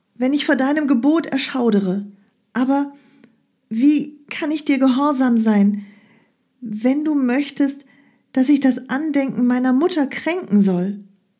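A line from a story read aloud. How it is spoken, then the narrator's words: Calling upon goddess. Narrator (German): rief Pyrrha die unsichtbare Göttin an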